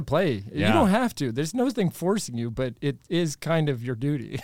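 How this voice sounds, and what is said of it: Usual voice. Nothing is said of it.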